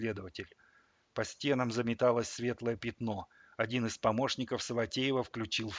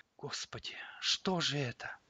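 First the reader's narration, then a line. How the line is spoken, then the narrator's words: Whisper. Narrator (Russian): прошептала Алла Леонидовна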